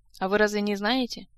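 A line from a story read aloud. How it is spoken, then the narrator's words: Sighing. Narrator (Russian): Жак вздохнул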